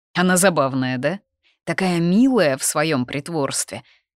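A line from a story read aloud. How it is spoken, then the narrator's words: Laughing man. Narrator (Russian): рассмеялся он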